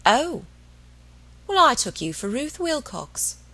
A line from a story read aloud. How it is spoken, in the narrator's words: an old woman, was descending, with face impassive, with lips that parted and said dryly